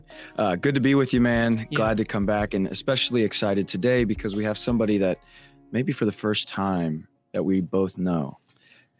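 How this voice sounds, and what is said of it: Slightly hoarse voice. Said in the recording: “A little hoarse ... losing my voice”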